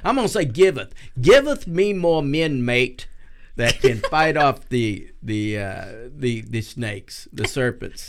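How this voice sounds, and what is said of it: Bad put-on Australian accent. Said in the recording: “That's the worst Australian accent ever.”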